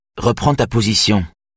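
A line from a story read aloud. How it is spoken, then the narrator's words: Curt, dry. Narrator (French): dit sèchement Jenny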